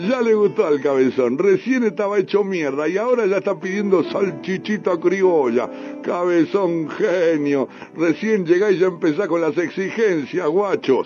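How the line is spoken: Shouting. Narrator (Spanish): gritaba

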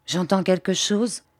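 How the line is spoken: Quavering voice. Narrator (French): dit Bobby d'une voix qui chevrota

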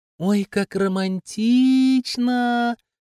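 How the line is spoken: Drawn-out drawl. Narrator (Russian): протянула Ромашка

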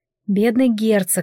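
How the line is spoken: Sigh. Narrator (Russian): вздохнула я

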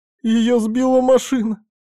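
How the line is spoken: Young woman sobbing aloud. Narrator (Russian): Уже не сдерживая эмоций, девушка разрыдалась в голос

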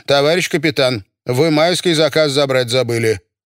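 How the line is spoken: Stern. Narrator (Russian): Лена Гвоздилина строго сказала

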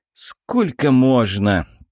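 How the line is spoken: Grumble. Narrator (Russian): проворчал Юрий

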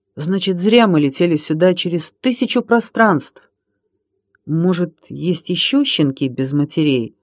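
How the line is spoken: Uncertain question. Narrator (Russian): неуверенно спросил Минька

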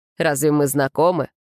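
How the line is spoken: Cold curt reply. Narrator (Russian): холодно бросил в ответ

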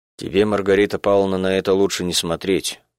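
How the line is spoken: Gloomy. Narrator (Russian): мрачно сказал Мишка Харунжев

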